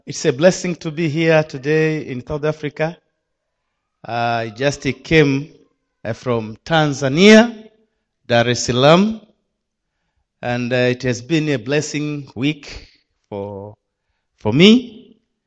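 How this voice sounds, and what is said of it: Non-native English accent. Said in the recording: “my accent is a different, slightly different with you, but hopefully you will catch me”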